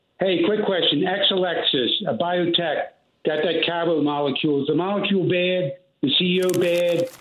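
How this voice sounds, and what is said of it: Noticeable regional accent. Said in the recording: “I love your accent because it sounds like me ... that guy's got that accent.”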